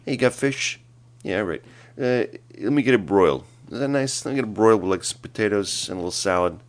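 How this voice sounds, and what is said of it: Bensonhurst mobster-style Brooklyn accent. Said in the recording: “my dad's going to be like a mobster for this particular, he's going to be from Bensonhurst.”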